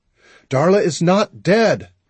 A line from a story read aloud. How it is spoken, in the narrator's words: I let my voice get louder than I'd intended